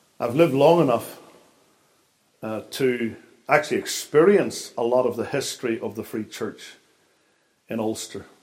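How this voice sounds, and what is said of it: Northern Irish accent. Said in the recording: “It's hard for me to disguise the fact that I come from Northern Ireland ... Most people seem to think I've got an accent.”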